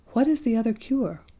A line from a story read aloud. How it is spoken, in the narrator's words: said Sabrinetta anxiously